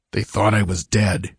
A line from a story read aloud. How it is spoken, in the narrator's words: he grunted, recovering some of his poise